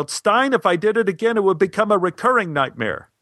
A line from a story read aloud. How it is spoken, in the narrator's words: I yelled